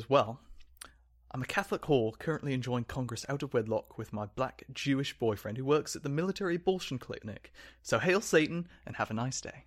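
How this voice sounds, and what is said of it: Poor put-on posh British accent. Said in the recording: “That was a terrible British accent ... pretty bad. I was trying to do like a Colin Firth accent.”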